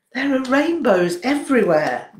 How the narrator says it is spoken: Noshal exclaimed

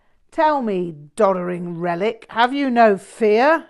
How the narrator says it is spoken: he laughed

